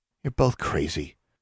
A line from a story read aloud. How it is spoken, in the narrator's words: Anna muttered